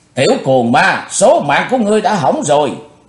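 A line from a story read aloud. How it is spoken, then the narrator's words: Woman roaring furiously. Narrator (Vietnamese): bà ta càng thêm giận dữ rống to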